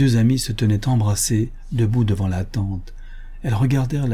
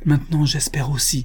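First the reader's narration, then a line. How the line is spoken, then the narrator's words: Exclaimed. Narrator (French): s'écria la femme de Tom Towners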